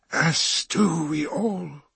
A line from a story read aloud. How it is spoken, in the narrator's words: wheezed Tevera